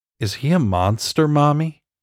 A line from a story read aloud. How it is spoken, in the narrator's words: Lily asked in her small, hesitant voice